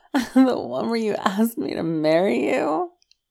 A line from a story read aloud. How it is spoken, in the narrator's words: Wei Ying laughed